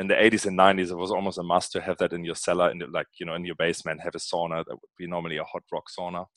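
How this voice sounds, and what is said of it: Northern German accent. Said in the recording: “you might have spotted an accent, and my accent comes from Germany, Northern Germany to be precise”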